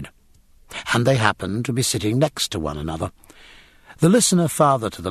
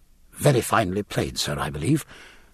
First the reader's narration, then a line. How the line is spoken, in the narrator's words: were formed in his gullet, if not quite in his mouth